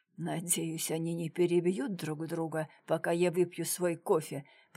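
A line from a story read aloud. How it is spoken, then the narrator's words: Muttered. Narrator (Russian): пробормотал комиссар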